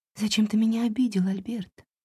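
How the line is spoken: Barely audible whisper. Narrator (Russian): прошептала едва слышно Ундина

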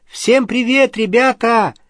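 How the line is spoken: Cheerful greeting. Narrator (Russian): весело сказала Полумна

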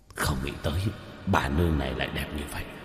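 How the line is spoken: Gulping, muttering demons. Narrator (Vietnamese): hai quỷ vương, trong cổ họng một trận nhấc lên nhấc xuống lẩm bẩm

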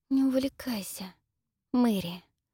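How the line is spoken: Quiet, through clenched teeth. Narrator (Russian): тихо цедит Энн сквозь стиснутые зубы

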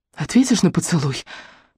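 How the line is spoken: Mumbling. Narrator (Russian): пробормотала я

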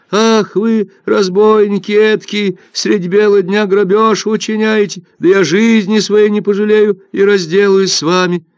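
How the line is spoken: Loud wailing shout. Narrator (Russian): Рыбачка громко завопила

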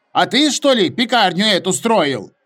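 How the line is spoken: Shouted. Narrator (Russian): прокричал кто-то другой

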